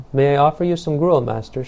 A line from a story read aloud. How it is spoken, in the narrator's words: asked